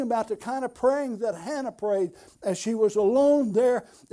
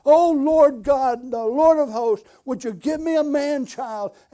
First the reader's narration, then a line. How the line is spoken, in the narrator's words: she pleaded and she poured out her heart